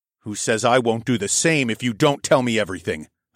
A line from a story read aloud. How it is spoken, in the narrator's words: I snarled